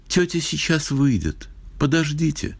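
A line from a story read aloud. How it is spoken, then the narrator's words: Sad. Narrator (Russian): она печально сказала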